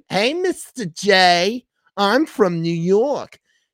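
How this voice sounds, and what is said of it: Cartoony Harley Quinn New York voice. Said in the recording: “her accent too was very cartoon... She's kind of doing like a Harley Quinn... It was cartoony.”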